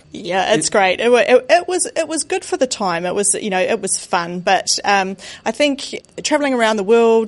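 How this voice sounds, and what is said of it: Slight New Zealand accent. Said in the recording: “you have a slight accent there ... I am from New Zealand”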